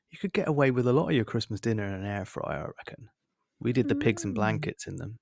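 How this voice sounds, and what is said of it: West Country drawl. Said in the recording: “That was a nice West Country drawl there.”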